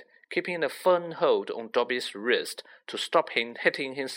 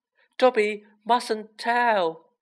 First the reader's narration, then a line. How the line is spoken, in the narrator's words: squealed the elf